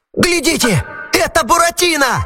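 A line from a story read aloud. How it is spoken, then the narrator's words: Shouted. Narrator (Russian): закричал Арлекин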